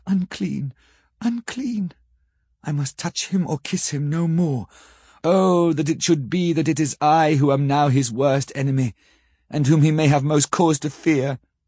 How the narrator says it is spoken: with a low wail, and whispered, amidst choking sobs

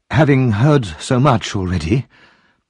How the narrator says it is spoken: she murmured

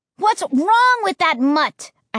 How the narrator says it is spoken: I cried

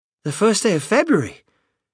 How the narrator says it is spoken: cried Mrs

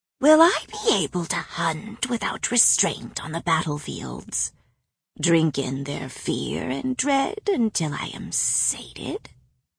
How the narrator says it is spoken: Bryaxis whispered in my ear

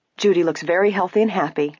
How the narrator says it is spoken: Nancy said quickly

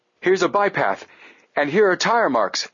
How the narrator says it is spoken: Frank exclaimed

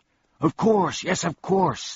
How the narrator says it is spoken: the man shouted

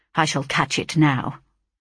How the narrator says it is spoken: He uttered a suppressed exclamation of consternation and dismay, and muttering

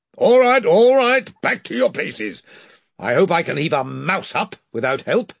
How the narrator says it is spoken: shouting to the sailors

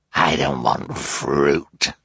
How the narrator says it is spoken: Olaf snarled

